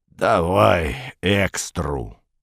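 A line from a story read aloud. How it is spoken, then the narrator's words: Grumbling. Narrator (Russian): проворчала левая голова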